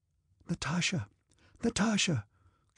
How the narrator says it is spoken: Countess Mary's frightened whisper

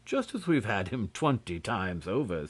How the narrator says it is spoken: said Beautrelet, laughing

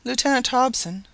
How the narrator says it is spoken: said the lady solemnly

